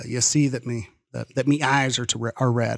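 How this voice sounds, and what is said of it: Put-on pirate accent. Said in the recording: “accent ... Is that pirate talk?”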